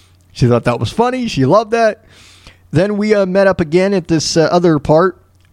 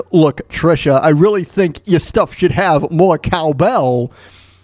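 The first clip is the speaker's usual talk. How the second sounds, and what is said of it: Imitates another person's voice. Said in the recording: “my Christopher Walken impression”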